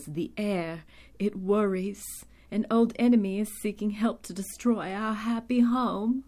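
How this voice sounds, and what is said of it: Attempted put-on accent. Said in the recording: “I just have to apologize for my accent, but I still have to try.”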